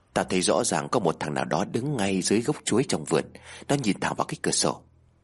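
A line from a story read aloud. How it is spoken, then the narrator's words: Close whisper. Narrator (Vietnamese): Đàn ghé sát mặt vào thì thầm nói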